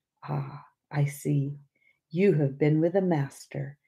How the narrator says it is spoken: he simply said very gently

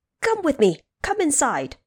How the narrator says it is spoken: The stone monkey shouting

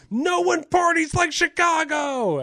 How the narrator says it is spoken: would yell

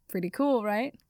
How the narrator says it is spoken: Harry laughed

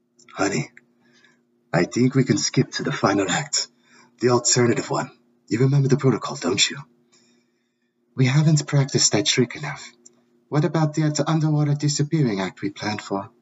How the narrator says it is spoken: Salazar whispered into his Mina's ear

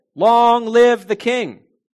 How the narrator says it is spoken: the people shouted

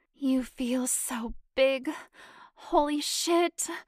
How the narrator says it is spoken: Janet groaned

